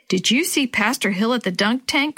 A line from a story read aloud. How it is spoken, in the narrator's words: Chris asked